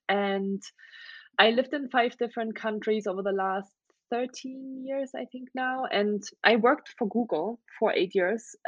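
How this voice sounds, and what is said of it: German accent. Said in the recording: “I have an accent. ... So I'm originally from Germany. That's where I grew up for the first 19 years of my life.”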